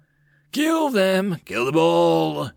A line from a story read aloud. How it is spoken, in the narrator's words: Moal roared